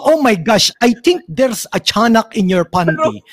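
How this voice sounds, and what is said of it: Filipino-accented English. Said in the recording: “biglang merong character na English ang salita pero Pinoy accent ... characters who have a Filipino accent”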